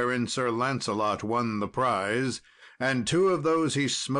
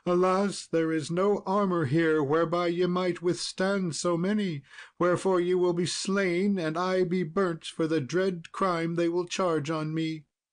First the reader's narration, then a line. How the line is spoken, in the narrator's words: Then did the queen weep sore, and dismally she cried